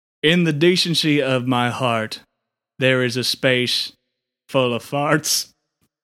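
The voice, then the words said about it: Choked-up, emotional recitation. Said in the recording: “getting choked up a little bit”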